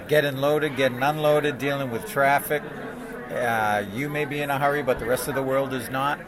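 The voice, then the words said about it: Slight New England accent. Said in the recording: “I hear a little bit of an accent. ... New England.”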